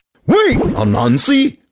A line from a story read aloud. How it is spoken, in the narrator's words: Turtle cried